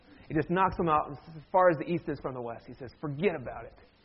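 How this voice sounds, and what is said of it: Usual voice. Nothing is said of it.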